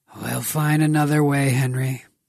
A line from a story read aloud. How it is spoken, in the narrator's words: Grigor sighed